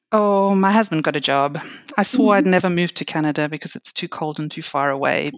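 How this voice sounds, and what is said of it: South African accent. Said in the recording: “I actually grew up in South Africa. You might have recognized an accent.”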